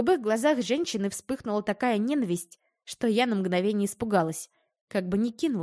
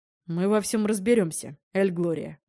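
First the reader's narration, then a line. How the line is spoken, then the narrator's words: Calm, emotionless speech. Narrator (Russian): Продолжил спокойно, безэмоционально говорить Брок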